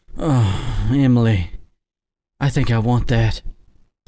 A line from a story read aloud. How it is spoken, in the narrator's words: Sarah murmured